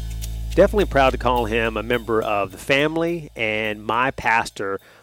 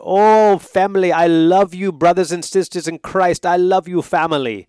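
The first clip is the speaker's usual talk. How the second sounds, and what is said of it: Impression with Jamaican accent. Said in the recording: “I'll do an impression of him ... he has a great Jamaican accent”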